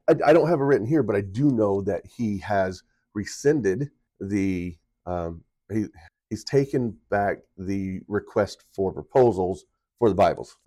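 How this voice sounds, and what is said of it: Sick, rough-sounding voice. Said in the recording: “you can probably hear it in my voice ... they probably hear your voice sounds pretty bad”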